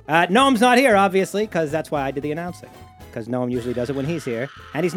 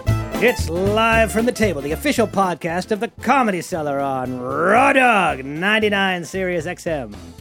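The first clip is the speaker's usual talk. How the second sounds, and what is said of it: Announcer voice. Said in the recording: “my announcer voice”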